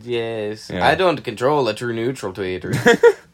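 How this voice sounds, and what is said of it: Swedish troll voice from South Park. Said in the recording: “doing the Swedish troll voice from South Park”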